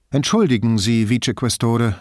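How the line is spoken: Plain. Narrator (German): sagte Brunetti

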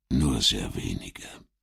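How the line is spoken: Sigh. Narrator (German): seufzte Claudio

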